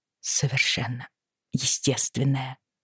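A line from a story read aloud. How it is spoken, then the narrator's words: Muttered under breath. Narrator (Russian): пробормотала Бриана себе под нос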